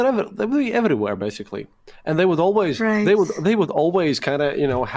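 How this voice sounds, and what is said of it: Usual voice. Nothing is said of it.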